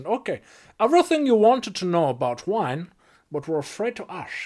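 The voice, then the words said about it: Bad fake Dutch accent. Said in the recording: “get into my Dutch accent ... That was really bad.”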